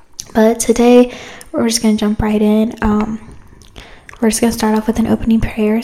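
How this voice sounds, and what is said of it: Congested, sick-sounding voice. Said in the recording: “I'm sorry if I sound sick. ... My allergies are just kicking me.”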